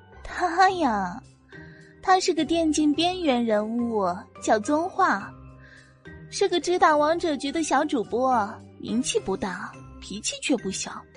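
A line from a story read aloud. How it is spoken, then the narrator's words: Scornful giggle. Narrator (Chinese): 他咯咯的不屑笑道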